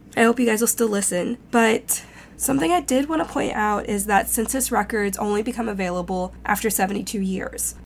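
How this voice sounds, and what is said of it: Shaky, rough allergy-affected voice. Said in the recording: “I got hit by allergies ... My voice is gonna be a little shaky and a little rocky.”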